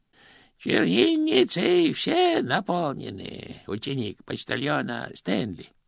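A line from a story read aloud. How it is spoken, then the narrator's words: Singsong. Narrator (Russian): нараспев произнес он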